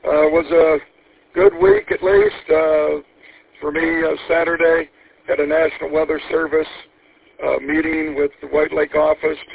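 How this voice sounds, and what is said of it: Hoarse, strained voice from a cold. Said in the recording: “excuse my voice. I have a cold ... everything settled in my throat, basically, so have a little trouble talking”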